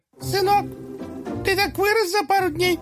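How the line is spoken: Joyful squeak, caterpillar. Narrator (Russian): радостно пропищала гусеница

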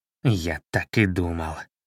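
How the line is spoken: Mumbled. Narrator (Russian): пробормотал Чернохвост

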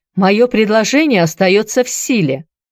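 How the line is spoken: Loud repetition for all. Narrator (Russian): Громко, так что слышали все присутствующие, повторил темноволосый

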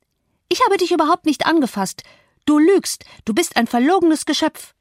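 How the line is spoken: Shrieked. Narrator (German): kreischte

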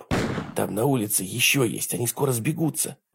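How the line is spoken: Whisper. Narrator (Russian): прошептала Диана

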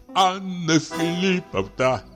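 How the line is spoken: Said while sobbing. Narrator (Russian): сказал, всхлипывая

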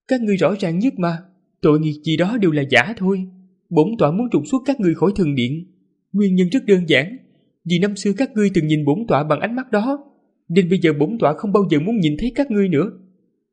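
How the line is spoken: Calm authoritative smiling. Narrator (Vietnamese): Diệp Hồng Ngư mỉm cười, bình thản nhưng đầy uy quyền, nói

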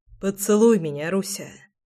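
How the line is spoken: Hoarse plea. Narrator (Russian): хрипло попросил Прохор

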